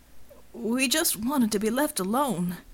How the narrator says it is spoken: Easy Listener whimpered

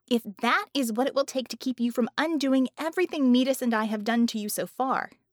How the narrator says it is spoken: she snapped

